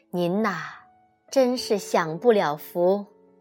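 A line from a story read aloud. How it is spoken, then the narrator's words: Teasing, laughing. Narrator (Chinese): 我便笑妈妈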